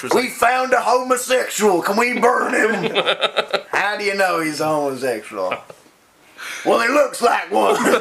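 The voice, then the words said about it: Exaggerated hillbilly accent. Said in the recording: “that horrible hillbilly accent”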